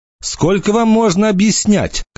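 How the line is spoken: Shouted after someone. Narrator (Russian): крикнула она ему вдогонку

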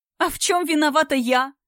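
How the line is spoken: Crying, shouting girl. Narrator (Russian): закричала девушка, снова расплакавшись

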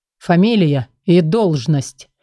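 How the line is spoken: Low gruff voice. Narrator (Russian): спросил он низким грубоватым голосом

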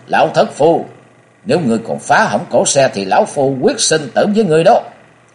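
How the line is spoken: Loud shout. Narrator (Vietnamese): Nhậm bất khí quát lớn

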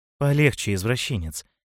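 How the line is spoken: Purring. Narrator (Russian): промурлыкал Мышелов

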